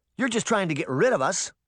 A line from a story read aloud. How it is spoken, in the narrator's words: Sabrina shouted